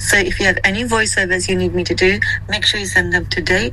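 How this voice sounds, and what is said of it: Husky, hoarse voice. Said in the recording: “my voice is getting much better. Nice, husky, and a little bit sexy ... if you like my husky voice”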